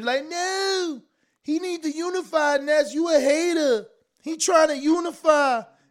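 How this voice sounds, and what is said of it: Put-on Baltimore/Philly accent. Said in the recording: “That's my Baltimore DMV accent, my Philly accent”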